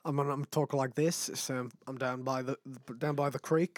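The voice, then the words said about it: Put-on Australian accent. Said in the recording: “Australian. ... Whatever country you think has like the funniest, coolest, weirdest accent. ... You have to do that.”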